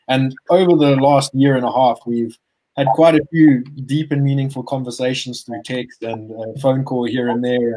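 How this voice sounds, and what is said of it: Zimbabwean accent. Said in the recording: “Damn, that South African accent. ... we're not South African. We are Zimbabwean.”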